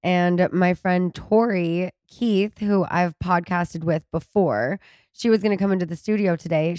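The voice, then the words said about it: Hoarse, congested voice. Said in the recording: “you can probably tell from my voice, it's still a little hoarse. I've been quite congested.”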